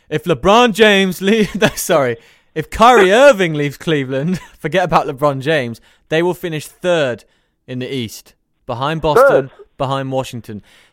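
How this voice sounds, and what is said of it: Imitates another person's voice. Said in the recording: “my best Shannon Sharpe impression”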